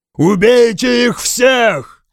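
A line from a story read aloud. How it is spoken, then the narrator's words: Shouted war cry. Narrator (Russian): прокричал я воинский клич от Эльфлет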